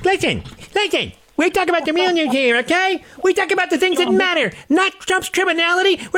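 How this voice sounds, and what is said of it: Imitates another person's voice. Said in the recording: “I really worked on that impression, by the way. Like, I have to embody that character. I had to so get inside that man's soul to do the voice that well.”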